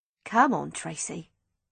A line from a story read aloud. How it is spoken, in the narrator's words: said Stella firmly